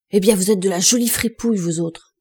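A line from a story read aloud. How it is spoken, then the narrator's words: Shouting. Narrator (French): cria-t-il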